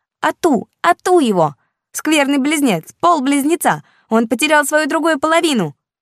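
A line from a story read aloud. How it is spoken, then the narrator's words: Shouting. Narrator (Russian): закричала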